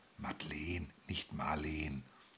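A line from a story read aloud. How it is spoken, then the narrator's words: Someone whispering. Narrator (German): flüsterte jemand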